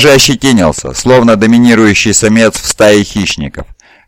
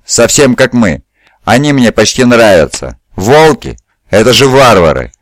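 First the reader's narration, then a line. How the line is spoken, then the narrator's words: Exclamation. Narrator (Russian): воскликнул Калофис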